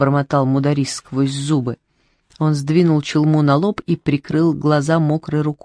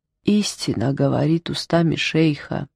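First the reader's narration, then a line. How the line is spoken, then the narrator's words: Sad agreement. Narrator (Russian): печально согласился Бобо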